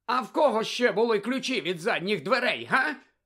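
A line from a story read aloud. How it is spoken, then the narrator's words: Barked. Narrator (Ukrainian): гаркнула куховарка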